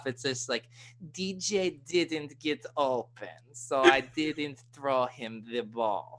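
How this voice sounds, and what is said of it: Put-on Russian accent. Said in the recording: “I wasn't ready for a Russian accent ... if I try to make it football, it's tough”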